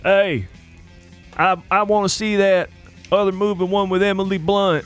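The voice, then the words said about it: Imitates another person's voice. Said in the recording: “your little Lou impersonation ... It always starts with, hey.”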